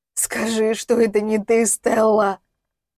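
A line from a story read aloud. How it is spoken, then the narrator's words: Hoarse rasp. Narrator (Russian): прохрипел он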